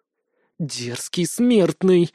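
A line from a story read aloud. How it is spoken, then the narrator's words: Hissing goddess. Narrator (Russian): зашипела богиня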